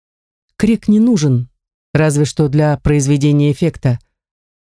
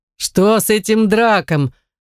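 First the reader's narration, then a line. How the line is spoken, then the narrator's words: Loud questioning crowd. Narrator (Russian): громко вопрошают вельможи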